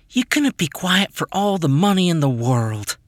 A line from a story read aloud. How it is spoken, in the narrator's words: I sighed